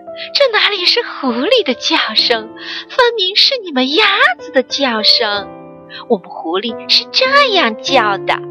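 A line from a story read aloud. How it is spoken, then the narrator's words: Laughing. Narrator (Chinese): 狐狸笑道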